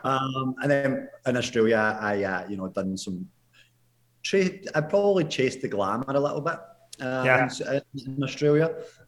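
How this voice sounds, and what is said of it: Scottish accent. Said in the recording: “I'm a painter from Scotland ... It's just called an accent”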